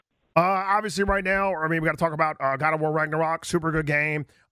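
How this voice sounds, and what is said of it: Patrick Mahomes impression. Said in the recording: “your impression request ... a video game review of God of War Ragnarok by Patrick Mahomes”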